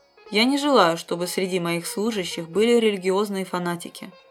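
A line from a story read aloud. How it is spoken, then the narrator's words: Mocking tone. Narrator (Russian): говорил он издевательским тоном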